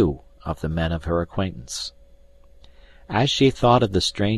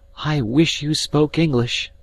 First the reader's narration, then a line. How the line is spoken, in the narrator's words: said the girl